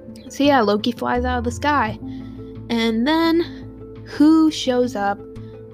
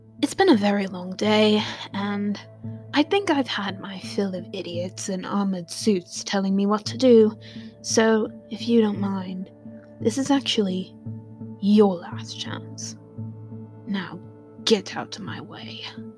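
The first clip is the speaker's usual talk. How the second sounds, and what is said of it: Loki character voice impression. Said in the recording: “do a Loki impression. I'm a little bit, my voice is a little off today, so it might not be good.”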